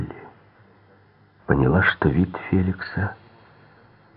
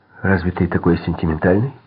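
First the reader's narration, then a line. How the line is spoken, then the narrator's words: Slightly sharp remark. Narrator (Russian): заметила она немного резко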